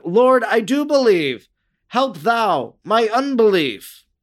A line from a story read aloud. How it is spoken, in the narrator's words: the father, weeping, exclaimed